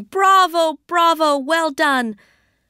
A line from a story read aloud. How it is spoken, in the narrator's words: old Zheng, who was beaming and shouting